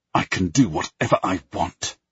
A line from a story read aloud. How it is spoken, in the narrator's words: I hiss